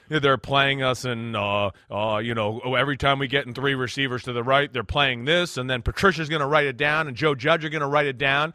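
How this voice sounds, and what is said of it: Imitates another person's voice. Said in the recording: “Not a great impersonation of Bill Belichick, but a pretty spot on impersonation of Phil Sims impersonating Bill Belichick”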